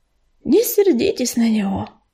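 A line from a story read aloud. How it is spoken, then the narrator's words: Sighing. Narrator (Russian): вздохнул горелый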